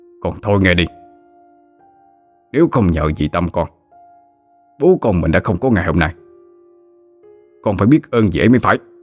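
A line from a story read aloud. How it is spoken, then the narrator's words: Angry scolding. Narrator (Vietnamese): Ông ta tức giận mà mắng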